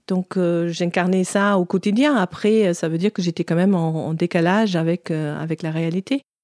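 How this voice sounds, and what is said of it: German accent in French. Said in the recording (French): “Vous l'aurez peut-être deviné à son accent, elle est d'origine allemande.”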